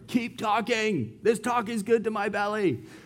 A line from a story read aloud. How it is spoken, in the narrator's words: they will yell from anywhere